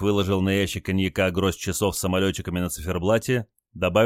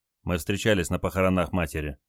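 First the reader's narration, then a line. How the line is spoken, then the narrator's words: Quiet. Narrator (Russian): тихо добавил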